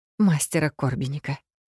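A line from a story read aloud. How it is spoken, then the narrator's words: Breathless exhale. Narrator (Russian): выдохнула Эфи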